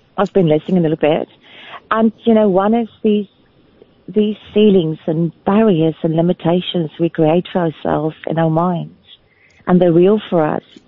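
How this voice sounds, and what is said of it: Slight South African accent. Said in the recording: “There's a bit of an accent. Are you South African? South Africa?”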